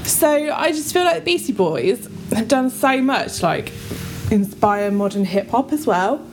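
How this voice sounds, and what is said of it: Out of breath after energetic performance. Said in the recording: “Are you a little bit out of breath now? ... I can hear you trying to cover it ... That was a very energetic performance. ... I am so very unfit.”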